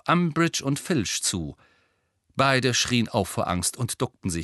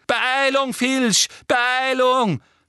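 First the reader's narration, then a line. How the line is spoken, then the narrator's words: Shrieking. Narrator (German): kreischte Umbridge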